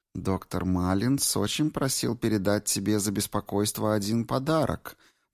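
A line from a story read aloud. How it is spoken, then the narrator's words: Cooing. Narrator (Russian): проворковала Грейс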